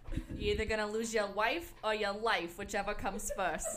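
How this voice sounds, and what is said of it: Put-on accent. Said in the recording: “could not stop talking in this accent”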